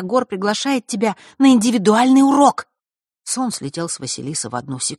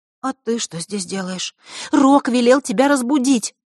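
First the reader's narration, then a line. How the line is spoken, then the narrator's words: Anxious whisper. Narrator (Russian): встревоженно прошептала Захарра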